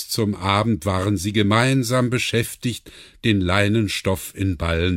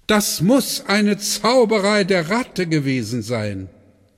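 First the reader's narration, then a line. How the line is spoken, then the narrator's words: Calling out. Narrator (German): rief Björn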